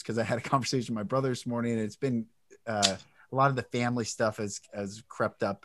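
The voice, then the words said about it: Choked-up, emotional voice. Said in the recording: “I'm getting choked up”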